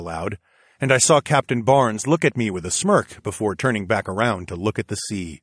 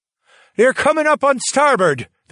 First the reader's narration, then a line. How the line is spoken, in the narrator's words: the captain yelled out